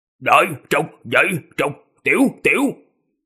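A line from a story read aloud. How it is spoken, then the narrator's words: Deep hoarse voice. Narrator (Vietnamese): Ma viên giọng ồm ồm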